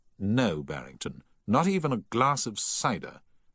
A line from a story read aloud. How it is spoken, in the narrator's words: said Paget firmly